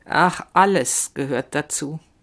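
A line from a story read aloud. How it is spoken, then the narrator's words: Said slowly. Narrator (German): sagt sie langsam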